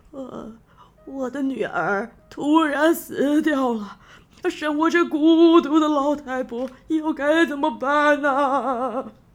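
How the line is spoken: Old woman's tearful lament. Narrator (Chinese): 老婆婆一边流着眼泪，一边哭诉着说

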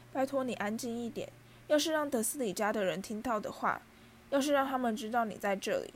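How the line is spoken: Panicked whisper. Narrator (Chinese): 哈利慌乱地低声说

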